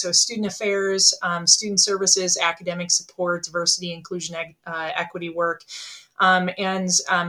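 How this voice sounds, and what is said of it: Northern Wisconsin accent. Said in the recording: “you can probably tell from my dialect that I live in northern Wisconsin”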